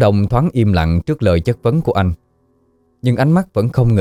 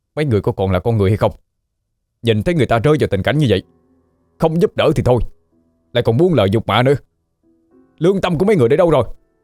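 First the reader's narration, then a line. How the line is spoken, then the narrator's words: Angry scolding. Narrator (Vietnamese): Đôi mắt anh ánh lên sự giận dữ khi quay sang mắng thẳng vào đám đông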